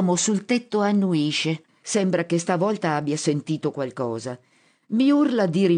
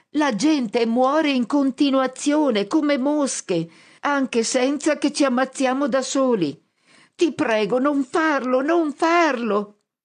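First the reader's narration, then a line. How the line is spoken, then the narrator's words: Shouting at top of lungs. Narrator (Italian): grido a squarciagola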